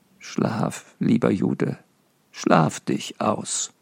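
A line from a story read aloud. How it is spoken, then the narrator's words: Said softly. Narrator (German): sagte leise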